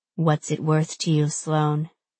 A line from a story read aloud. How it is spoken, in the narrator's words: He asks softly